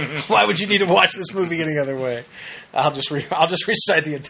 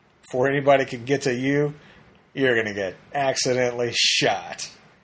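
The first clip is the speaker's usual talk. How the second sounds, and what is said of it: John Wayne impression. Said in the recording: “My John Wayne impression is awesome”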